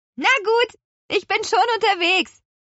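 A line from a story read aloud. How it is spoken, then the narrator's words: Calling out. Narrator (German): rief Petronella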